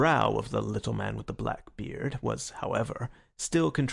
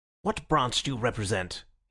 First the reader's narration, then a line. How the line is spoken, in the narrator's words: he asked sharply